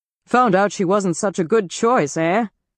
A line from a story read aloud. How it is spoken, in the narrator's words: sneered the lieutenant